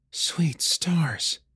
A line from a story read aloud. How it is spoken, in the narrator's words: she murmured